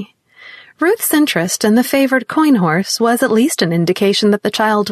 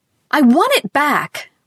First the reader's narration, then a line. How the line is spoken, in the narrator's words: Ruth wailed furiously